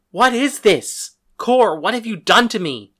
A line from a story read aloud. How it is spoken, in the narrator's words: cried